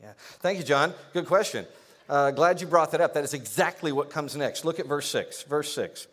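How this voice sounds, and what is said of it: Usual voice. Nothing is said of it.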